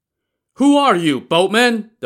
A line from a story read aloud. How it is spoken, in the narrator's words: the pursuers shouted again